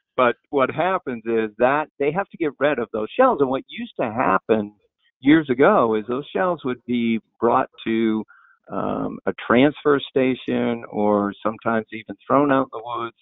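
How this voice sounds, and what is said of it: Maine accent. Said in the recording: “I am from Maine, so my accent may get in the way as we talk.”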